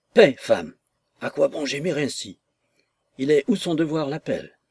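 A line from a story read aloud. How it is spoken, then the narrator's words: Man murmuring. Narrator (French): murmura-t-il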